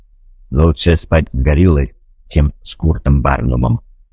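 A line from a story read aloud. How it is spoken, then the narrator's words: Grumbling robot. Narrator (Russian): буркнул робот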